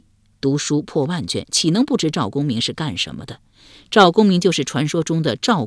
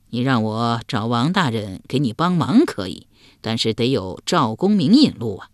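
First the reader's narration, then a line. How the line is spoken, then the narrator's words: Chuckling. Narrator (Chinese): 仁雅嘿嘿一笑说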